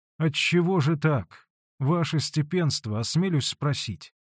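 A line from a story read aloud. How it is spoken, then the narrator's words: Timid question. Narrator (Russian): робко спросил Алексей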